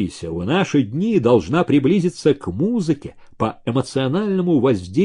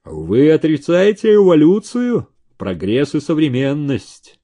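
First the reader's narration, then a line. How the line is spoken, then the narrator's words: Lazy booming drone. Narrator (Russian): Лениво прогудел гривастый субъект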